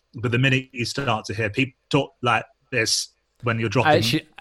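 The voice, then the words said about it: Imitation of choppy dropping call audio. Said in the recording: “That was a really good impression.”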